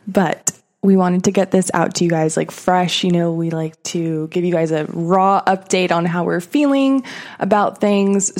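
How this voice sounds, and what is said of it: Scratchy voice. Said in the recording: “my voice is a little scratchy, it's literally because I've been up since the early morning”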